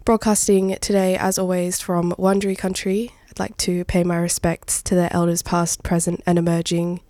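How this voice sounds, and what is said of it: Gravelly, slightly hoarse voice. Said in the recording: “you can hear it in my voice too... sorry in advance for the little gravel that I've got going”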